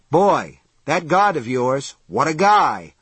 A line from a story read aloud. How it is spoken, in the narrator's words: Marinville said cheerfully